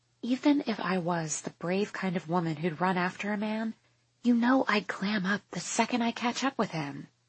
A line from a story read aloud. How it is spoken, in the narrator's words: whisper softly